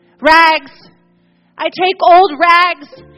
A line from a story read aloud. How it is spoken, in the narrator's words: cried the sobbing, bleeding, strong, intelligent ragman